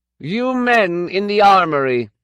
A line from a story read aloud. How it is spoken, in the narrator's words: he shouted, his voice ringing clearly through the hall